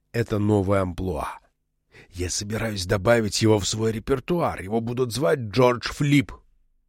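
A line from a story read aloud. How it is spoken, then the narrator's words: Conspiratorial whisper. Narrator (Russian): Заговорщическим шепотом он сообщил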